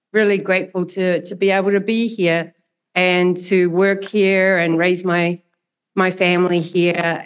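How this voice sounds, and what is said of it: Melodious New Zealand accent. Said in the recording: “as you can tell by this melodious accent, a relatively recent immigrant from New Zealand”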